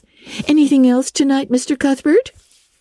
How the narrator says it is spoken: Miss Harris cheerfully inquired

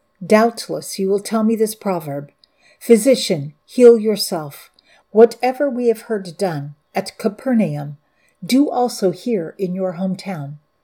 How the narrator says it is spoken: He said

